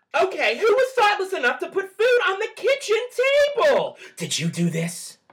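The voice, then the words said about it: Screaming Mary Kay impression. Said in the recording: “That scream was like almost perfect. ... The scream was spot on. ... You did a great Mary Kay voice impression.”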